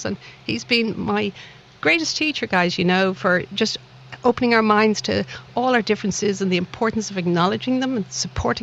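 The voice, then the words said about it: Irish Dublin accent. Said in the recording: “this little accent of mine was not from the lovely town of Liverpool. I like to think it's from an equally lovely town called Dublin across the Irish Sea”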